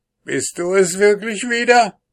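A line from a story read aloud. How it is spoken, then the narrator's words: Angry dwarf's shout. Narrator (German): rief ihn der Zwerg zornig an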